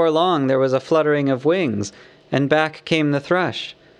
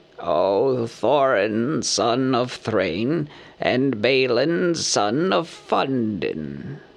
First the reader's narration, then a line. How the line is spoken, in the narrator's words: he croaked, for he used ordinary language and not bird speech